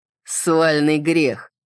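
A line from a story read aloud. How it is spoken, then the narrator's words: Laughing. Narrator (Russian): Салливан засмеялся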